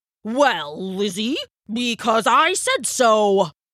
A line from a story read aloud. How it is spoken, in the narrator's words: roared the Elder